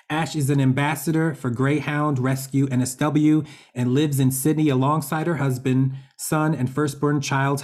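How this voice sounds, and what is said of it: Attractive non-Australian accent. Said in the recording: “that gorgeous accent... Everything just sounds so much cooler than when us Aussies do it”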